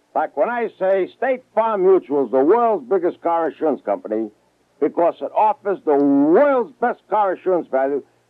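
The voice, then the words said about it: Brooklyn accent. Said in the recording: “I talk with a bad Brooklyn accent.”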